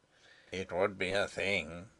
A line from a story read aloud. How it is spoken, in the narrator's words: muttered Sapt